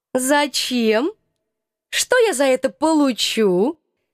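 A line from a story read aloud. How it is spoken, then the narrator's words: Mocking question. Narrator (Russian): Насмешливо поинтересовалась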